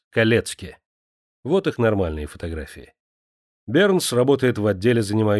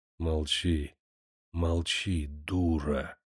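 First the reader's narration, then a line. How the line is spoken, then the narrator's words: Hoarse male reply. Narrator (Russian): хрипло отвечал мужчина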